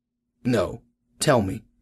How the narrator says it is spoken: he said

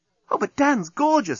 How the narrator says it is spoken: exclaimed Nettie

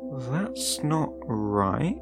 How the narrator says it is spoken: I had muttered

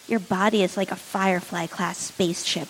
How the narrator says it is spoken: Wash murmured

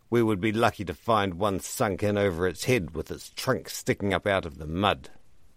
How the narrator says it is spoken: Ribbreaker snorted

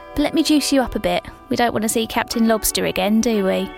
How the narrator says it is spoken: She chuckled

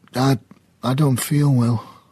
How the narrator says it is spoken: croaked

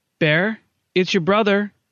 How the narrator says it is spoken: she called out

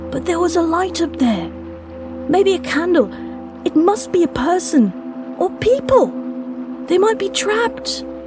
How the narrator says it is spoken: Luca pleaded as much with his tone as his words

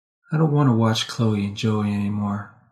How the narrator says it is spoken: she said softly

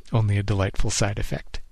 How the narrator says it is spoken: he chuckled

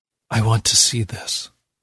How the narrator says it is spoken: I whisper

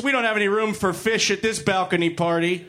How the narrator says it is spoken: Waldorf shouted

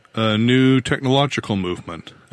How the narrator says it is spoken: said

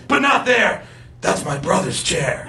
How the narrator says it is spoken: I hissed

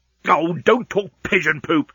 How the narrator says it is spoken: snapped Leovenus

